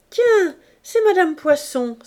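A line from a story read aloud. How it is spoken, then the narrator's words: Exclaimed. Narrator (French): s'écria Gervaise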